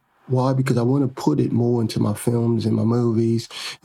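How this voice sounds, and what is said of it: Attempted British accent. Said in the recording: “I'm attempting to do my whole podcast with a British accent because now I'm studying the accent, the British accent.”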